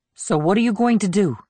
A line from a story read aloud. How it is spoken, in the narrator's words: Vance asked nervously